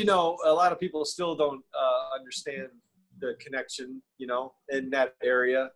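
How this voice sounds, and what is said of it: Usual voice. Nothing is said of it.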